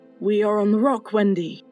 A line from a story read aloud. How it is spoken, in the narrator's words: said